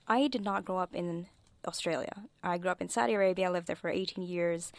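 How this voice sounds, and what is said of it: English with slight American twang. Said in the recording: “I have an American twang to my accent”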